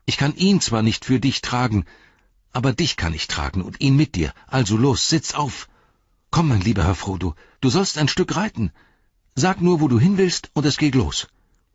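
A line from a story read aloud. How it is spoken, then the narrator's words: Calling out. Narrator (German): rief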